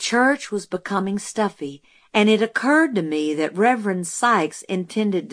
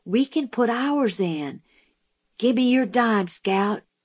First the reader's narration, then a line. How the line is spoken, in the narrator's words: Jim whispered